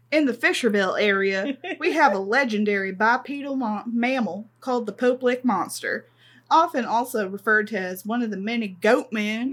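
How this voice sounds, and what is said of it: Put-on Southern US accent. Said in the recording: “do this in a Kentuckian accent... perhaps more Arkansan accent than Kentuckian”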